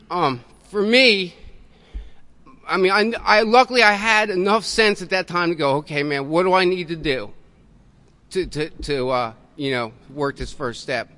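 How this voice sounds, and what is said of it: Choked-up, emotional voice. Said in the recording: “I get choked up when I think about this, man.”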